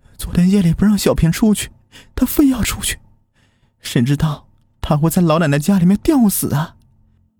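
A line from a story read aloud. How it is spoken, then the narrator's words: Crying mother. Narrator (Chinese): 小平的妈妈哭着说道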